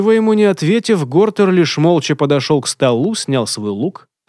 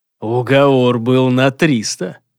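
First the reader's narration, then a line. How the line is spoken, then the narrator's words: Menacing growl. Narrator (Russian): грозно прорычал следопыт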